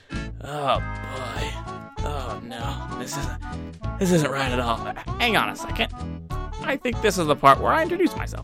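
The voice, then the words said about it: Impression of Conker the Squirrel. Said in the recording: “impersonations. Maybe they're good, maybe they're bad, but they're certainly immature. And today's impersonation is going to be Conker the Squirrel from Conker's Bad Fur Day”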